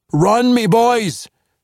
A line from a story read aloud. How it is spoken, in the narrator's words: Brunner shouted at the retreating forces